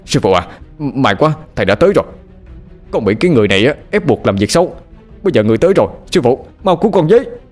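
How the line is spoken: Shouting. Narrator (Vietnamese): Bằng hét lên

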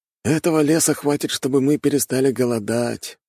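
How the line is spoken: Sighing. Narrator (Russian): вздохнул первый

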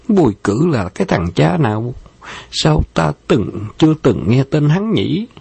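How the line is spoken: Smiling. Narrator (Vietnamese): Bạc Phong Hằng mỉm cười

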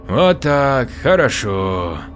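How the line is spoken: Pleased drawl, smiling. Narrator (Russian): С довольной улыбкой протянула медсестра

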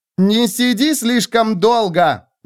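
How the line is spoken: Yelling after someone. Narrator (Russian): заорала она вслед

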